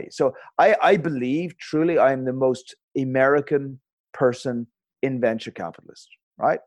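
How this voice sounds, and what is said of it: Speaks with a non-American accent. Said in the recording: “you've got an accent there”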